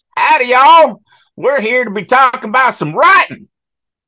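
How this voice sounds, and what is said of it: Put-on hick country accent. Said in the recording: “my hick ways ... that accent”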